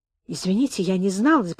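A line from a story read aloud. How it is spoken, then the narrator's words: Mumbled. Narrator (Russian): пробормотал я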